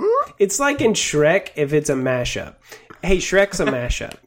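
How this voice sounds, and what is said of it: Usual voice. Nothing is said of it.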